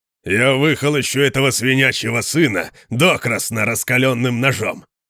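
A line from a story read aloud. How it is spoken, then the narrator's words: Furious growl. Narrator (Russian): прорычал Конан, когда закончил ругаться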